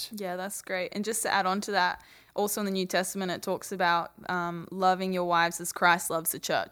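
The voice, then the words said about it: Australian accent with slight Southern tinge. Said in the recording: “Little bit of Southern in your Australian accent ... just a little bit.”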